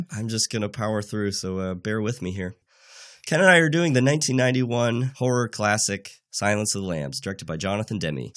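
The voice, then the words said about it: Congested voice from a cold. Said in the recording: “I have a cold this week”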